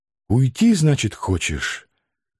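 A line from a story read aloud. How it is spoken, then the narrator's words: Quiet whisper. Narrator (Russian): тихо прошептала она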